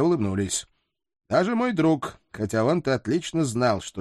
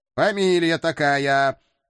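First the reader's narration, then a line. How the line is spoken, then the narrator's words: Silly cartoon-cat voice. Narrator (Russian): дурашливым голосом кота Матроскина вклинился я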